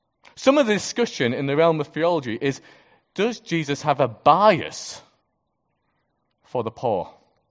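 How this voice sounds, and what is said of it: Speaker's own regional accent. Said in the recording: “Or poor, as I say it. I thought I'd translate for those who don't quite get my accent.”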